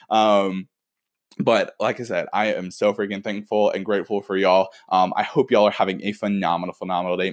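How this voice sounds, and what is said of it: Excited, energetic voice. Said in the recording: “I am so freaking pumped right now ... I'm like dancing around ... having so much fun ... tell that by my voice”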